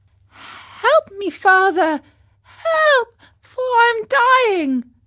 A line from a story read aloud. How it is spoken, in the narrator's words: cried out weakly